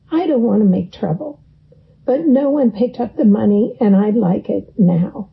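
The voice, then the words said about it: Stern, schoolteacher-like voice. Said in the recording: “now in my sternest Sunday school teacher voice”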